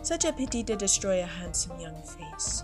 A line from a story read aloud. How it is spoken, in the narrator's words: she told me soothingly